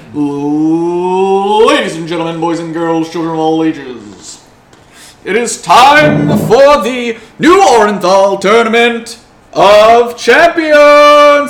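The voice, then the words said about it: Bad arena announcer impression. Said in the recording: “a very bad Michael Buffer impression come over the arena”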